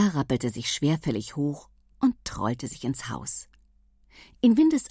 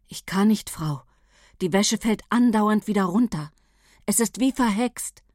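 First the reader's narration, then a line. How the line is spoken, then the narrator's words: Desperate, trembling voice. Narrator (German): Paula … verzweifelt … sagte mit zitternder Stimme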